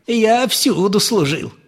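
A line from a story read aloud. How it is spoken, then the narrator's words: Cheerful old man. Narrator (Russian): сказал старик весело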